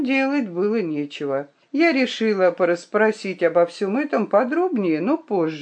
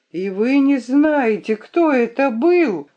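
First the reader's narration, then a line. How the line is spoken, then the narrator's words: Exclaimed. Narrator (Russian): воскликнула я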